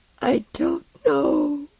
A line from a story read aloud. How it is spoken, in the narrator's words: Osden said, sobbing with weakness